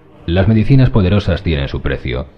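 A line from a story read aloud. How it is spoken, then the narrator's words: Calm reply. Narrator (Spanish): contestó Ramsay con voz calma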